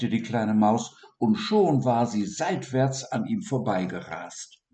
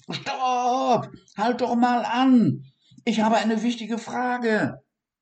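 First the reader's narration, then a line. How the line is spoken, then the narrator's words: Called out even louder. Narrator (German): rief noch lauter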